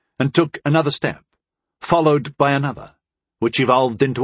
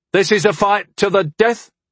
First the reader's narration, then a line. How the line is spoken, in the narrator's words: Harm shouted